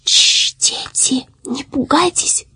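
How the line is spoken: Whisper. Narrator (Russian): прошептало оно

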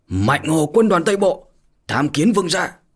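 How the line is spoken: Loud shout. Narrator (Vietnamese): cao giọng mà hét to

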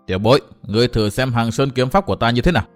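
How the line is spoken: Cold. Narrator (Vietnamese): Đồng Hạo lạnh lùng nói

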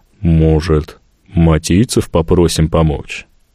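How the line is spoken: Quiet, reluctant. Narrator (Russian): Тихо и неохотно озвучил мои мысли Тук

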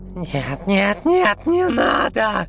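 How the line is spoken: Screaming. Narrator (Russian): завопила псевдодевушка

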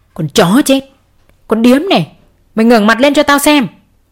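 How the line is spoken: Angry through gritted teeth. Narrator (Vietnamese): Ông Tuấn nghiến răng giận dữ

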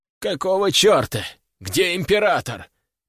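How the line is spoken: Groan. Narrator (Russian): простонал Владимир Тимофеевич

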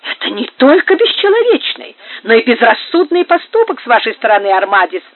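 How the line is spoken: Exclaimed. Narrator (Russian): воскликнул Серано

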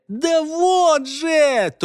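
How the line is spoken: Near-screaming, breaking into shouts. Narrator (Russian): то и дело, переходя на крик, уже почти вопил он

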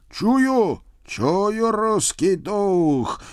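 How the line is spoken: Loud male shout. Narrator (Russian): громко вскричал мужской голос

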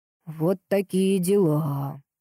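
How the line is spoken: Sorrowful drawl. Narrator (Russian): протянул горестно Витяй

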